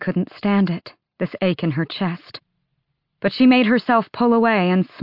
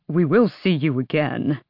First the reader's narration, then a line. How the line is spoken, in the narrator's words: Kaol said, but even his voice was thick with tears